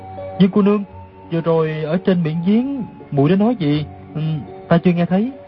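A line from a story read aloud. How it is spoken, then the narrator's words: Hesitant stammering question. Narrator (Vietnamese): Đoàn Dự ấp úng hỏi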